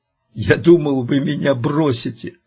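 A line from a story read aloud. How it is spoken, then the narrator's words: Sobbing young man. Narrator (Russian): паренек разрыдался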